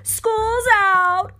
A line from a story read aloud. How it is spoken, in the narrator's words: cried the genie